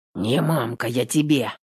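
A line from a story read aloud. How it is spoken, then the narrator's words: Gruff mutter. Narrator (Russian): Буркнул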